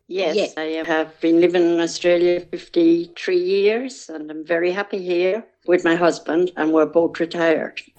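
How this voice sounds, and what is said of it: Irish accent. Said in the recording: “you've kept your accent, I hear. ... Yes, I haven't lost a bit of it. ... County Cavan”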